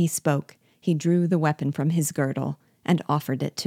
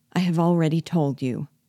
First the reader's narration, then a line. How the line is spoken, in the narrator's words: answered sadly